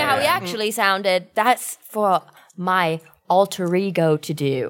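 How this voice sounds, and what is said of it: Usual voice. Nothing is said of it.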